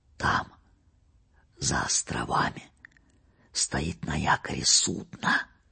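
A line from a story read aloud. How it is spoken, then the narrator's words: Whisper. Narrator (Russian): прошептал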